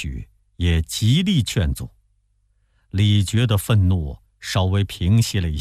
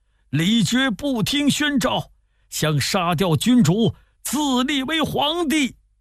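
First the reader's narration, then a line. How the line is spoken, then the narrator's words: Loud shout. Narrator (Chinese): 黄甫立大叫说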